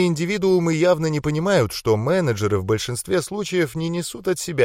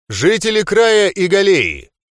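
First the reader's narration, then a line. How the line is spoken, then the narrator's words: Loud declaration. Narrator (Russian): Громко произнес я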